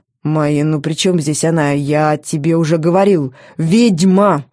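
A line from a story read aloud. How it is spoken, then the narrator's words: Growled. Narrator (Russian): рыкнул он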